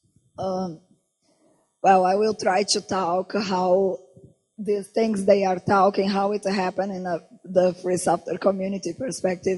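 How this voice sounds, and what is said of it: Hoarse, strained voice. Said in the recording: “my voice is really bad today”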